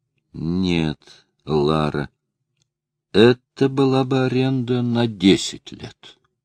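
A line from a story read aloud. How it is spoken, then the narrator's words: Slow, after a pause. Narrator (Russian): Он помолчал, затем медленно сказал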